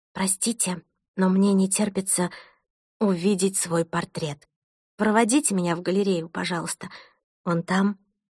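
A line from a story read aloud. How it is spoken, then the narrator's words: Whispered in ear. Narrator (Russian): шепнула Томасу на ухо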